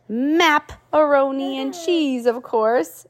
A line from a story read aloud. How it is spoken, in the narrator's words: exclaimed the pirate captain